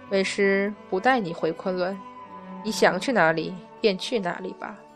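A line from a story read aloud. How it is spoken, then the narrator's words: Hesitant, low voice. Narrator (Chinese): 迟疑一下，玉鼎真人还是低声道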